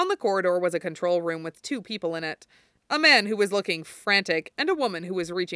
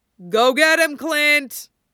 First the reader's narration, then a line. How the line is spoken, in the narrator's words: Steve yelled encouragingly